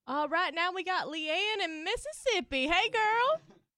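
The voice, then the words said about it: Southern American accent. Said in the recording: “I still have my Southern accent. Did you hear that?”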